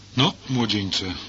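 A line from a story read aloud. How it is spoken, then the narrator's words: Plain. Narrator (Polish): powiedział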